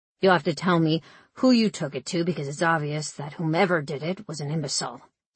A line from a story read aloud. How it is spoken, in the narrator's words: growled